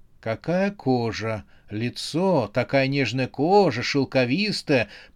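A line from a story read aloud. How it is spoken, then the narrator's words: Man whispering. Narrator (Russian): прошептал мужчина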